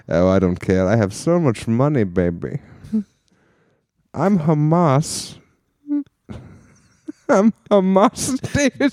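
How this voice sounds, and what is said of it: Put-on accent, drifting from normal speech. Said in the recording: “I'm still doing the accent, but now it's getting even further and further away from human speech”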